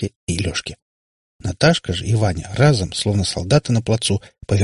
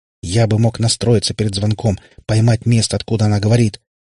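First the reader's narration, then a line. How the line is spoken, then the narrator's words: Desperate exclamation. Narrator (Russian): воскликнул Катипап, в отчаянии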